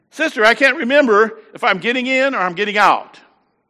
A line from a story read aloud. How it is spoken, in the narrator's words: she yelled downstairs to her sister